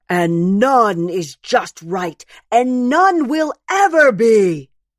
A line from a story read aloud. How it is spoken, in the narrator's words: screams Ta'a'eva, who is always the biggest bear